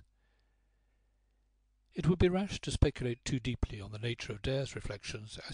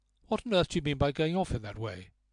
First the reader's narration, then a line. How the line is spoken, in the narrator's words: asked coldly